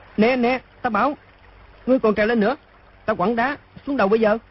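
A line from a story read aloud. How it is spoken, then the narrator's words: Frightened loud shout. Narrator (Vietnamese): Đoàn Dự sợ quá, quát to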